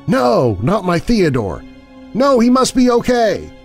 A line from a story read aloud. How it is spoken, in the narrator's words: she exclaimed